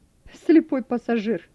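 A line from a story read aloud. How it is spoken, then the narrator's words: Laughing. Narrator (Russian): засмеялся Вернер ему вслед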